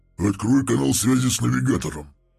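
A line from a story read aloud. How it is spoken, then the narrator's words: Growled. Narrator (Russian): прорычал Вознесенный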